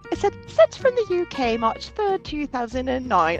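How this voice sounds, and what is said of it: Weak put-on British accent. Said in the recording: “I don't do accents very well”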